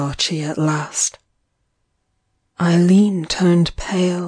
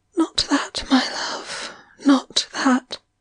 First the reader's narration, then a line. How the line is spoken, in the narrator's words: she whispered